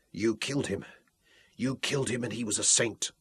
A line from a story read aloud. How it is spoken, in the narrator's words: she whispered, her voice light but shaking with fury